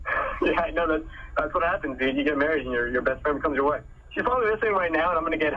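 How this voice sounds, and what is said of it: Usual voice. Nothing is said of it.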